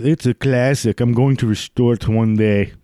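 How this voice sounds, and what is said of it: Put-on unidentifiable accent. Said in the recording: “I don't know what accent that was.”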